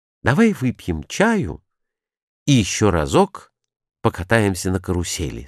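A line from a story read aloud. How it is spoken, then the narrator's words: Plain. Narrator (Russian): сказал Бикет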